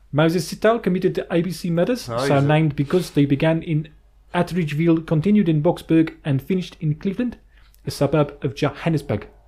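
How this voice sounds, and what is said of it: Put-on South African accent. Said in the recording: “read this out in a South African accent ... I don't even know if that's a good South African accent. I think it's hard to read.”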